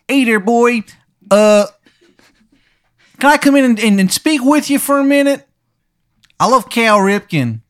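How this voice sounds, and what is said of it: Terrible put-on Maryland accent. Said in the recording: “in his terrible Maryland accent.”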